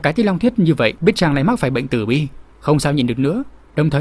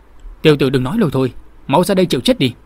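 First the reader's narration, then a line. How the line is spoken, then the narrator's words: Angry retort. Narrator (Vietnamese): Lục Đạt tức giận đáp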